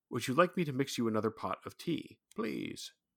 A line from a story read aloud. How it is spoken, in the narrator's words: His tone was measured and polite